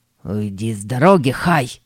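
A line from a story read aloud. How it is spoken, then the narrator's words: Hiss. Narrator (Russian): прошипел Боб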